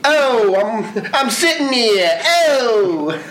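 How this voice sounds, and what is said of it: Character voice with New York accent. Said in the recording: “Can you do Thanos with a New York accent? ... That is Brooklyn Thanos”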